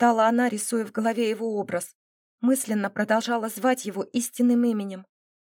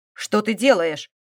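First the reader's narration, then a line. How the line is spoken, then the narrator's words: Irritated whisper. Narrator (Russian): раздраженно шепел он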